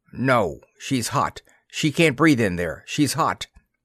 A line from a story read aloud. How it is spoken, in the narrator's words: said thickly